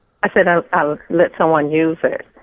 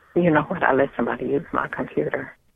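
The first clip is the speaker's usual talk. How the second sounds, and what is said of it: Mumbling, hard to hear. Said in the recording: “Can you stop mumbling? It's really, it's hard to hear you.”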